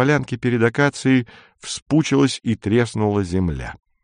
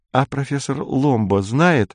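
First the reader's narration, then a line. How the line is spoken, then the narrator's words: Timid question, thin girl. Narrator (Russian): робко спросила худенькая, остриженная под мальчика девица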